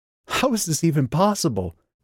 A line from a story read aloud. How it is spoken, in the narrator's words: she gasped